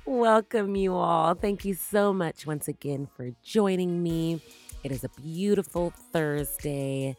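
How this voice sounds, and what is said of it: Hoarse, strained, fading voice. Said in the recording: “I feel like I'm losing my voice. Ugh. ... I know that was struggle bus”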